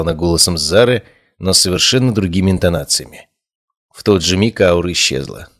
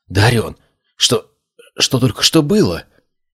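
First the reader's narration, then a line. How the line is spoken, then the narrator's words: Shaken whisper. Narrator (Russian): прошептала, похоже, сама только что осознав, что на мгновение потеряла контроль над собственным телом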